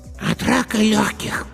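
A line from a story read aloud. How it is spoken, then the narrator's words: Hoarse child's voice. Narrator (Russian): сказал хриплый детский голосок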